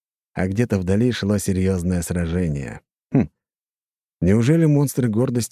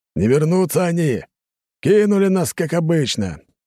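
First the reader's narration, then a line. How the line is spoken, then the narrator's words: Big man shouting. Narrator (Russian): выкрикнул крупный мужчина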